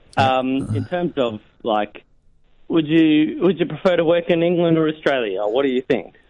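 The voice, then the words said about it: Australian accent. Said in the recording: “It sounds vaguely Australian, maybe a little bit South African... It is Australian”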